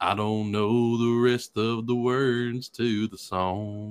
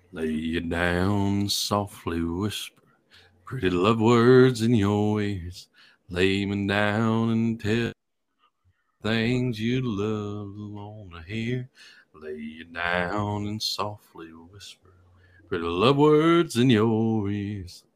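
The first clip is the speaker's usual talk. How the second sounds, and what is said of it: Low, deep singing voice impression. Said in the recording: “You got the gravitas of that lower”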